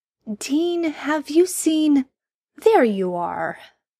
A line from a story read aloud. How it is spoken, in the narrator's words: Sam's voice echoed out over the gravel